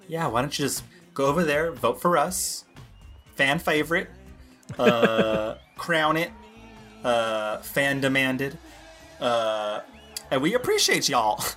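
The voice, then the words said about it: Put-on Southern accent. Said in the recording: “that's how you do a southern accent... that was southern”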